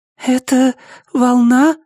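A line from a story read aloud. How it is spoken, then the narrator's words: Trembling voice. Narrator (Russian): спросила Кайоко дрожащим голосом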